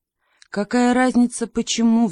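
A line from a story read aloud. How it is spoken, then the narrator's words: Old woman sighing. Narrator (Russian): вздохнула бабушка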